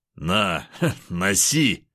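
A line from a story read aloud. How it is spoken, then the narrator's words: Laughing loudly. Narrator (Russian): хохотал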